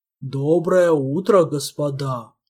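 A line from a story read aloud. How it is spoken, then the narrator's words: Deep bass voice. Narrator (Russian): пробасил он по-мистралийски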